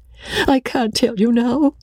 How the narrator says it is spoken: sobbed Rebecca

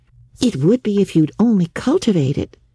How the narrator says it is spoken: said Anne cheerfully

